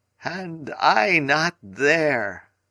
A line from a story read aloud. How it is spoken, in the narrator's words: he groaned